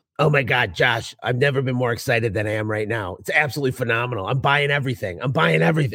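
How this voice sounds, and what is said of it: Imitation of Tommy Mello. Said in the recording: “do my Tommy Mello voice”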